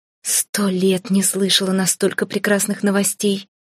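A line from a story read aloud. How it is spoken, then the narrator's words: Breathless, happy, smiling. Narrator (Russian): выдохнула, широко и счастливо улыбаясь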